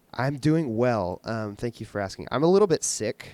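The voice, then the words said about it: Faint, lower sick voice. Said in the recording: “My voice is a little bit non-existent, but it's also kind of like lower and cooler.”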